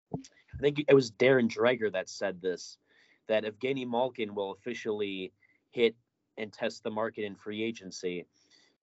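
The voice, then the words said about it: Slightly rough, strained voice. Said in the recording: “I'm losing my voice a little bit. I was sick ... I've been talking a lot today, so it's a little rough”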